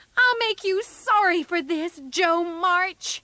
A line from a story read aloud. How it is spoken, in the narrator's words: Amy shouted